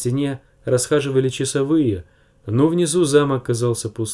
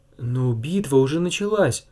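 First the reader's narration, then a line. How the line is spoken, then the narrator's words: Trembling voice. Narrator (Russian): дрожащим голосом говорила леди Танда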